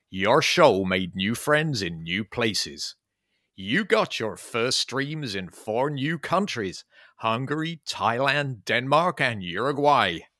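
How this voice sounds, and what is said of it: Exaggerated American accent. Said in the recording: “stupid USA accents”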